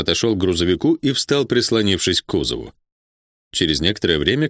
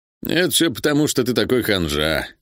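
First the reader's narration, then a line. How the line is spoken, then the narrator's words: Calm remark. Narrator (Russian): спокойно заметил Див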